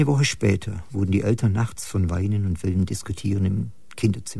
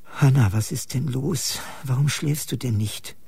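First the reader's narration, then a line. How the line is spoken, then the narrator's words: Tired mother asking. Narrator (German): fragte die Mutter müde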